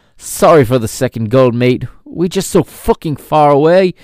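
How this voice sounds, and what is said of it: Poor put-on British accent. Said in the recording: “Apologize for that horrible British accent”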